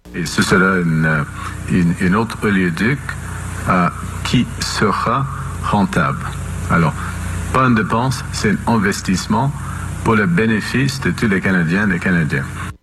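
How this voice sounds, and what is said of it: Somewhat broken accent. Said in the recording (French): “accent un peu cassé”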